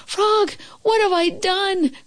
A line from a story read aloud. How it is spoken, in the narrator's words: cried Toad